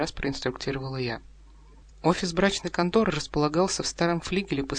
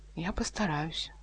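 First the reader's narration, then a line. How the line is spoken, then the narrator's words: Timid reply. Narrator (Russian): робко ответил он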